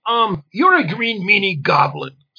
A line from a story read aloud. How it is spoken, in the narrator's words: snapped Mystica